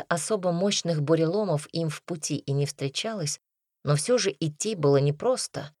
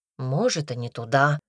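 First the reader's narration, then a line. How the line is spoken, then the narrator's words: Tired grumble. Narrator (Russian): буркнул Дима, который уже довольно сильно устал шагать по бездорожью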